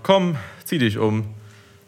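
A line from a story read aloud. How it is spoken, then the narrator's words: Sighing. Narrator (German): seufzte Mama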